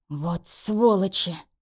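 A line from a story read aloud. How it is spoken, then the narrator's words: Through gritted teeth. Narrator (Russian): процедил отец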